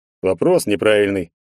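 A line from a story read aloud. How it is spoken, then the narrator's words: Snorting. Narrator (Russian): хмыкнул здоровяк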